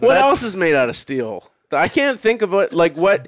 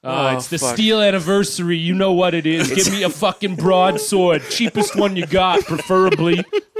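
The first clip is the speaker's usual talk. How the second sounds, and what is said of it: Exaggerated Boston accent impression. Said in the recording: “my terrible Bill Burr impression ... You went for Boston”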